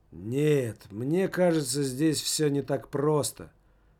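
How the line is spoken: Tired. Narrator (Russian): устало сказал Немаркетинг

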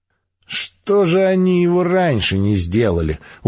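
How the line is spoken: Stubborn mutter. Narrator (Russian): упрямо пробурчал четвертый

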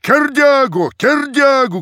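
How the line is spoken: Crowd shouting. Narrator (Russian): кричала толпа

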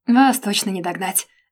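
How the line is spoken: Snorting. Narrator (Russian): фыркнула я

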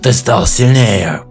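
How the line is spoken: Growl. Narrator (Russian): прорычал

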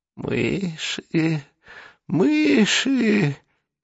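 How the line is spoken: Pleased wheeze. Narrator (Russian): довольно просипел уродец

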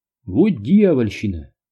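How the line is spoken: Annoyed exclamation. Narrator (Russian): воскликнул раздосадованный Дью

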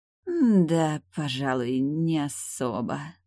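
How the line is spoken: Drawl. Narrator (Russian): протянула Тайгуча

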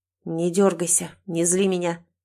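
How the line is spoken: Through clenched teeth. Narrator (Russian): сквозь зубы проговаривает Глеб

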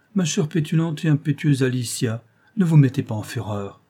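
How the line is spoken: Young man pleading. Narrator (French): dit le jeune homme d'un air suppliant

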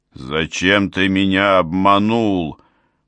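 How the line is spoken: Growling. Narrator (Russian): прорычал Бао

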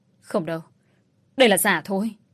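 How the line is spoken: Stubborn shout. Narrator (Vietnamese): ông Đông vẫn ngoan cố rồi quát lên

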